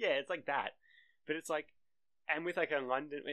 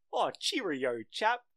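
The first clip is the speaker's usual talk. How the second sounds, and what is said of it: Exaggerated fake British accent. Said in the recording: “you ever tell an American to do a British accent, they go”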